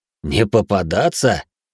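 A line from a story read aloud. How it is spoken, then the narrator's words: Laughing. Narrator (Russian): рассмеялся Гуйшен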